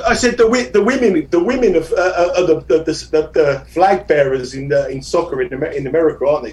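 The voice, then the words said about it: Hard-to-follow foreign accent. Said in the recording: “I don't know what you just said because your accent there.”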